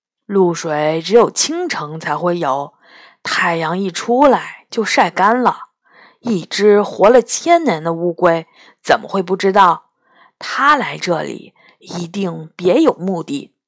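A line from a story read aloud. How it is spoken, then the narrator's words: Low, hushed voice. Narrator (Chinese): 杨永乐压低声音说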